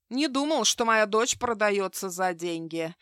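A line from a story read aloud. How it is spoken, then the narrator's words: Rude, curt. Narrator (Russian): грубо бросил он вместо приветствия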